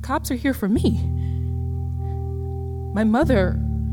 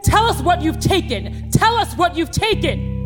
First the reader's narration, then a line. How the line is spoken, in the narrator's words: shouting